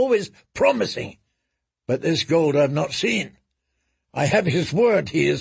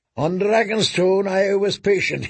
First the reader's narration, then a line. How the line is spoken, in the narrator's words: he said